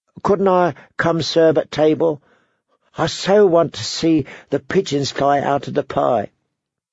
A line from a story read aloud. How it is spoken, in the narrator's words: said Shay wistfully